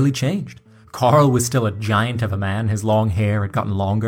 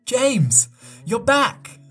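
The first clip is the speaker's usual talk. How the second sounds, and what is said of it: High-pitched fake English accent, yelling. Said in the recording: “yelled in her high-pitched faux English accent”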